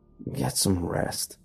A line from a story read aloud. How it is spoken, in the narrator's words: He mumbled